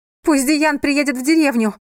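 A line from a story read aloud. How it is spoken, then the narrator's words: Shout. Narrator (Russian): крикнула она Йоване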